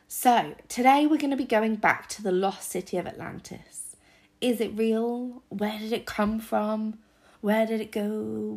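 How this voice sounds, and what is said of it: Sick-sounding voice. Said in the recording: “I do have a cold. My voice is now as good as it's going to get ... It doesn't sound too bad on recording”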